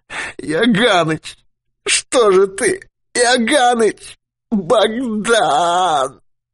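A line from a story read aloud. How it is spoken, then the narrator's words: Moaning. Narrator (Russian): Юрковский застонал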